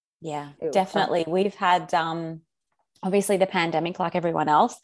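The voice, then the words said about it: Australian accent. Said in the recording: “you're in Australia. We can tell by your yes. accent”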